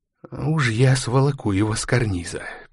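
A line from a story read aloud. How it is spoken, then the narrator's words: Diplomat hissing. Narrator (Russian): прошипел дипломат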